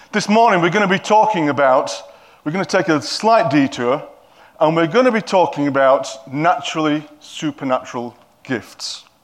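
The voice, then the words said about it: Yorkshire English accent. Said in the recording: “I'm a Yorkshireman, they probably don't understand my accent ... you certainly don't understand my accent”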